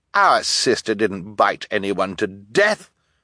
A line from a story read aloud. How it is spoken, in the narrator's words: Violet said indignantly